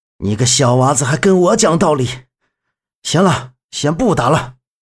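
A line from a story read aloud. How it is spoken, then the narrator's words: Breathless. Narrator (Chinese): 门三爷 气喘吁吁的说道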